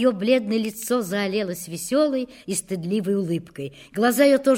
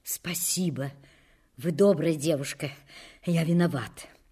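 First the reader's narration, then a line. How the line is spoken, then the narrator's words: Agitated furtive whisper. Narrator (Russian): Лаврецкий все еще взволнованный украдкой шепнул ей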